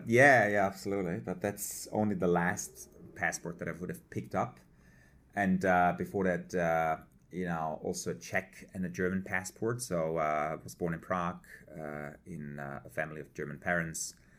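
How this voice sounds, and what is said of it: Noticeable foreign accent. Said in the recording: “there's an accent there”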